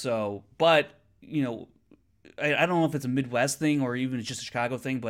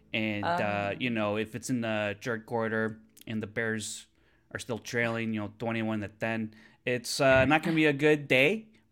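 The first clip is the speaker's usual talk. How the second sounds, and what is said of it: Exaggerated Chicago accent. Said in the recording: “that's a really exaggerated Chicago accent, made mostly famous by the Superfan skit on SNL with Chris Farley and Mike Myers”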